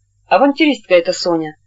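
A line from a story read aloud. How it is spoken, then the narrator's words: Angry. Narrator (Russian): сердито сказала она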